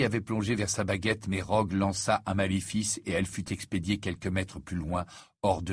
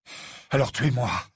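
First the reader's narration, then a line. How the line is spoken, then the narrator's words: Breathless voice. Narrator (French): dit Harry, la voix haletante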